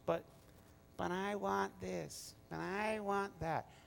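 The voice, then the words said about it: Whiny nagging voice. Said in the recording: “that little whiny voice goes”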